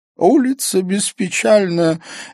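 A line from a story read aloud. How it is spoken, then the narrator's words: Giggling. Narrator (Russian): Эон хихикнул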